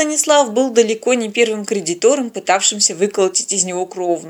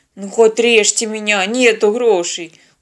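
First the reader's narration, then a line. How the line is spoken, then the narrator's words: Weary. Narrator (Russian): устало развел руками продавец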